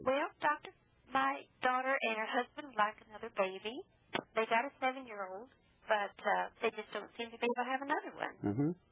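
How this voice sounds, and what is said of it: Nashville Southern accent. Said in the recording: “I just love that Nashville accent.”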